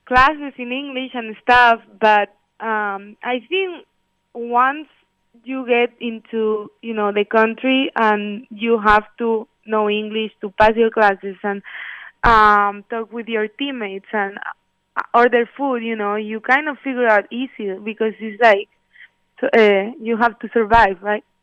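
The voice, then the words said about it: Spanish accent mixed with Floridian English. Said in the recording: “I have this accent, because I learned my English in Florida, and over there everyone has this accent... your accent was because you're from Spain... it's a mix of both”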